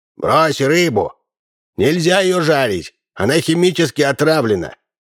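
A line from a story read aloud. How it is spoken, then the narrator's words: Shout. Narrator (Russian): он крикнул Минцу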